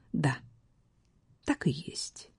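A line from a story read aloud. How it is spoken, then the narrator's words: Quiet young woman, hesitant. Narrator (Russian): Молодая вдова негромко признала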